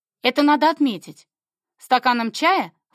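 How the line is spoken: Snorting. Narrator (Russian): фыркнул Иван

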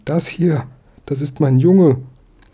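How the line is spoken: Stammering. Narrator (German): stammelte sie

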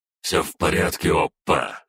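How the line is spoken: Amused snort. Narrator (Russian): хмыкнула Фая

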